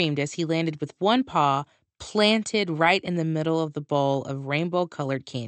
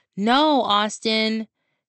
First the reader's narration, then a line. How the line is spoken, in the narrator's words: she shouted